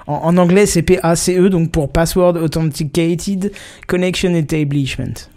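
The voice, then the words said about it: Heavily French-accented English pronunciation. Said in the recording (French): “très bon accent de merde.”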